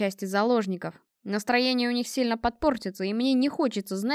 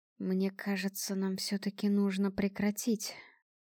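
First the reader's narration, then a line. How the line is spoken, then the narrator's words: Whispering. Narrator (Russian): прошептал он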